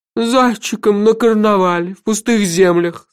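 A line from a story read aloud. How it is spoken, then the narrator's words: Moaning. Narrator (Russian): стонал сэр Кофа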